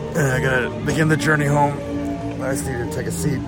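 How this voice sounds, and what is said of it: Tired, fading hoarse voice. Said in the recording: “My voice is kind of going away.”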